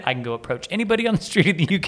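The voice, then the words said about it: American accent. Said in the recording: “I've got an American accent.”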